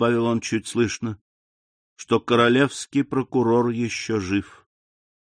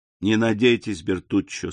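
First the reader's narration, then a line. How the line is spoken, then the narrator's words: Plain. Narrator (Russian): сказал граф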